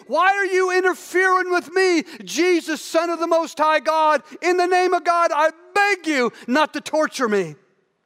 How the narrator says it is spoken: He screamed

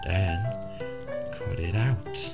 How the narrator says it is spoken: Sippick said in a whisper

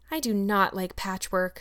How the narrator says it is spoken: said Anne dolefully

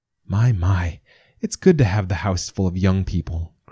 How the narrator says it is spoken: Grandmother sighed

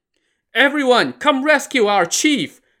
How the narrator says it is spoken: the head of the bandit lackeys cried out

